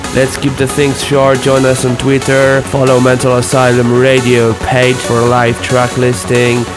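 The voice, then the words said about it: Deep, sick-sounding voice. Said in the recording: “I'm very sorry for my sexy and deep voice today. I've been sick all week.”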